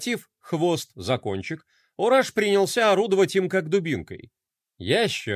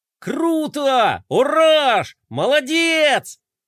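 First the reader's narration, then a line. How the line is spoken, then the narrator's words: Shouted. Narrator (Russian): закричал Флай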